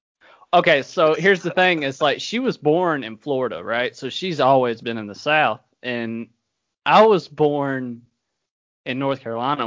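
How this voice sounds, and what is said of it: Mild Southern US twang. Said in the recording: “Your two accents are different. You've both got a twang, but ... more so. ... She's definitely more Southern than I am.”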